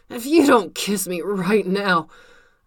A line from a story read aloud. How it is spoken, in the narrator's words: Tony said through gritted teeth